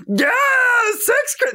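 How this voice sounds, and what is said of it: Silly comedic voice. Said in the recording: “in a silly voice”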